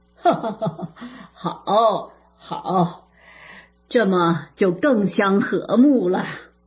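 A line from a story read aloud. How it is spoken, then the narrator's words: Laughing. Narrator (Chinese): 贾母笑道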